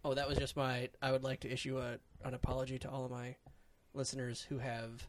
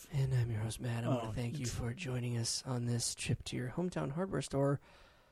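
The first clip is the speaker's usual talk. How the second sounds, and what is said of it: NPR-style public radio voice. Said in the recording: “Finally broke out of the NPR voice. ... The beginning was.”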